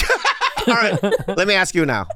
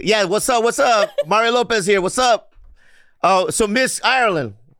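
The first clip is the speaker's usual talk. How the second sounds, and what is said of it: Impression of Mario Lopez. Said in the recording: “But I'm Mario Lopez. ... that sounds like him. ... Are you doing George Lopez or Mario Lopez? ... I'm doing a combination. ... All the Lopez.”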